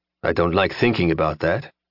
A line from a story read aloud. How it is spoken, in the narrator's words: Dorval said grimly